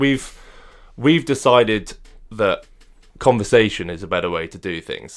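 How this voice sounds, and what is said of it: Usual voice. Nothing is said of it.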